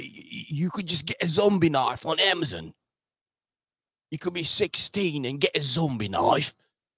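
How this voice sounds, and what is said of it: Put-on British accent. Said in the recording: “I know he doesn't sound like that. That's just my my standard British accent.”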